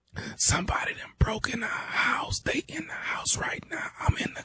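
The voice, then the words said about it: Whispering, very quiet. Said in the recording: “Man, speak up. I can't hear you. ... why in the hell are you whispering?”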